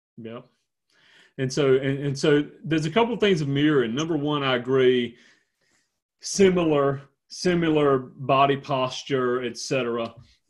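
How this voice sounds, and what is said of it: Deep South American accent. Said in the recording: “Yours is quite a deep south one. ... Deep south in North Carolina.”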